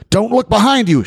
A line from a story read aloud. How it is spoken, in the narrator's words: shouted the policeman